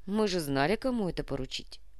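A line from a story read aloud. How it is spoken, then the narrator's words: Amused snort. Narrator (Russian): хмыкнул Кортес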